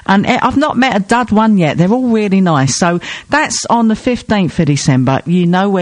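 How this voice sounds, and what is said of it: Usual voice. Nothing is said of it.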